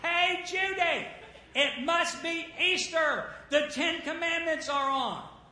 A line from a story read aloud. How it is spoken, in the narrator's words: hollered and said